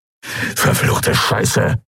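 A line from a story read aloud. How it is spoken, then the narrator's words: Hissed. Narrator (German): zischte Urdrak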